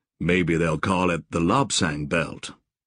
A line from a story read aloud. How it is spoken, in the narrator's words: Joshua said dryly